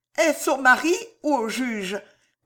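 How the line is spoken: Stammering. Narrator (French): balbutia Madame de Villefort

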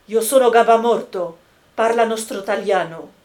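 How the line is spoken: Quick, lively. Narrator (French): dit vivement Jacques Collin

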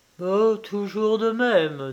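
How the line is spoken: Sighing. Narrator (French): dit-il en soupirant

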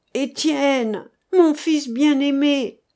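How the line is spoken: Old man exclaiming. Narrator (French): s'écria le vieillard

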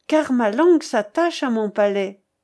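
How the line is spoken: Exclaiming. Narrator (French): s'écria Athelstan

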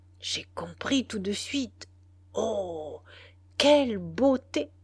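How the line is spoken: Gently amused, cheerful. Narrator (French): Benedetta s'égaya doucement de son enthousiasme

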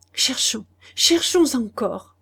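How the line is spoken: Stammered. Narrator (French): balbutia-t-il

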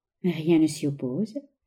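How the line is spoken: Young woman, shy murmur. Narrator (French): murmura la jeune femme, qui rougit imperceptiblement

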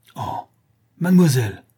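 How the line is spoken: Choked, frightened exclamation. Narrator (French): s'écria-t-il d'une voix étranglée par la frayeur plus que par la colère

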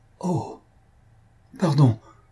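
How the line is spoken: Stammering. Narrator (French): balbutia M

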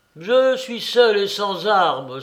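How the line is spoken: Loud exclamation. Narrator (French): s'écria-t-il d'une voix forte

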